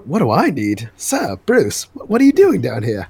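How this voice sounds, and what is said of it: Put-on accent for a character. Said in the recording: “Nice accent.”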